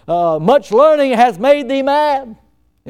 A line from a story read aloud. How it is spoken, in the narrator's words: He shouted out